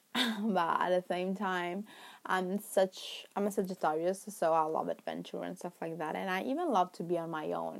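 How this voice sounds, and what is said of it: Non-native English accent. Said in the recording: “my accent ... my English is not perfect”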